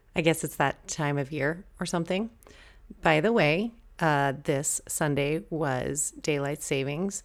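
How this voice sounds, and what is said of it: Slightly scratchy voice. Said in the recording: “My voice is a little scratchy today.”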